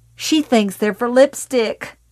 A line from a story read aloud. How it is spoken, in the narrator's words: Ruth Gogan suddenly shouted with cryptic glee, and then burst into a shriek of laughter